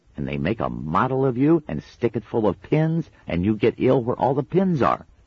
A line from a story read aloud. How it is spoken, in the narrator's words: she added cheerfully